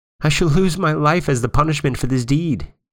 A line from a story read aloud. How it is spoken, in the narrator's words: he sobbed